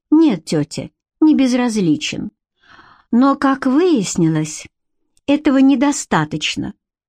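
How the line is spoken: Sigh. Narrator (Russian): вздохнула Бренна

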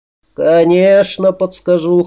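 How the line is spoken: Wry snort. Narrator (Russian): хмыкнул он

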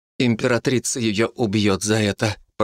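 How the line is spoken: Through clenched teeth. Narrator (Russian): процедила сквозь сжатые зубы Нико

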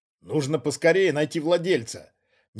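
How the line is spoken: Displeased grumble. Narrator (Russian): недовольно проворчал Вольшек

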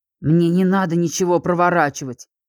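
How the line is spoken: Angry young man. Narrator (Russian): зло отозвался парень

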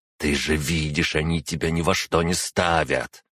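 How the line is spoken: Calm-sounding growl. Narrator (Russian): рычала Арана, внешне оставаясь совершенно спокойной

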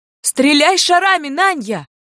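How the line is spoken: Full-voiced yelling. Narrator (Russian): орала отрава в полный голос

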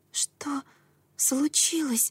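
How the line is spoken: Whisper. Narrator (Russian): прошептала я

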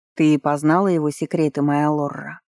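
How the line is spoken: Insinuating question. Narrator (Russian): вкрадчиво спросил Диаль

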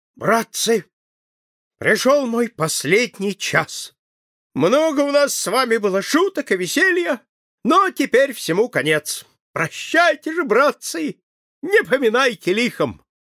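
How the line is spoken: Loud. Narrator (Russian): сказал громко

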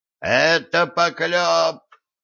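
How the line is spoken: Gnome yelling. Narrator (Russian): завопил гном

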